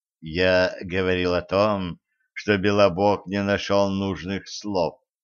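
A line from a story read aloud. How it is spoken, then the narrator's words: Calm. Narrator (Russian): спокойно продолжил Астарот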